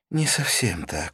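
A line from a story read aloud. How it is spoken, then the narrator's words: Sigh. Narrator (Russian): вздохнула она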